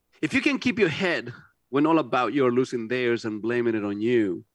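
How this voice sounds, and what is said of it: Non-native accent while reading aloud. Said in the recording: “whenever I read, my accent comes out ... my second language”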